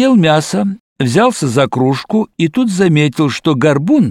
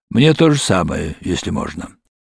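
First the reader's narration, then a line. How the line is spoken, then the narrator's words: Muttered. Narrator (Russian): Тот пробормотал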